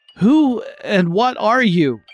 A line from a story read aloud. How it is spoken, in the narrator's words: he cried out